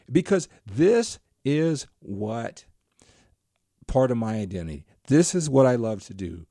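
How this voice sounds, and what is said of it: Excited, rising energetic voice. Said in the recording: “just getting excited. My voice is picking up”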